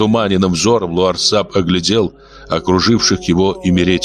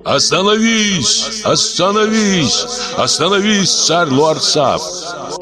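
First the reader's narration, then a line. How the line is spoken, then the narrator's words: Crowd shouting. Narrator (Russian): кричал народ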